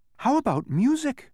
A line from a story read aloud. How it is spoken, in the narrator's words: asked Milo excitedly